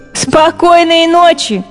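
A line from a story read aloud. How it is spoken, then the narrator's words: Mice laughing. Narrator (Russian): смеялись мыши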